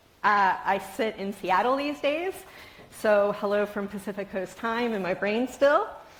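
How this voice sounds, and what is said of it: Baltimore accent, twangy O's. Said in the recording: “the twang in my O's, that's my hometown of Baltimore, Maryland”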